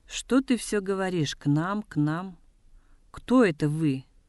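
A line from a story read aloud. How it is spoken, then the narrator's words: Mocking question. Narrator (Russian): насмешливо спросил Гамбо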